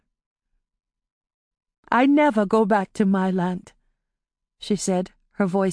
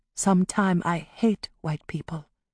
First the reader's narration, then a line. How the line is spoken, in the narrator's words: she admitted softly